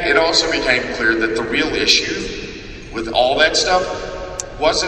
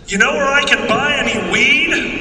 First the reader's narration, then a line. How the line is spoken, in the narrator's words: two youths one of them yells